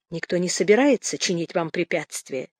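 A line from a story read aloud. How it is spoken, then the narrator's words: Quiet. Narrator (Russian): тихо сказала Наталья Павловна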